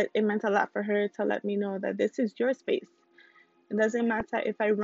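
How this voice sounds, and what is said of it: Usual voice. Nothing is said of it.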